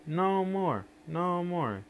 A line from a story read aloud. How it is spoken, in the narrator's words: Ayo, Ibu, and the other children gave the biggest shouts of all